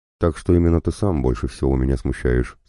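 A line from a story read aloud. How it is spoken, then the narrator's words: Plain. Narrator (Russian): сказал Селим III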